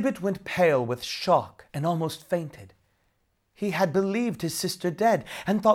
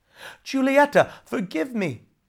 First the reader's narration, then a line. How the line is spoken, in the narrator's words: he begged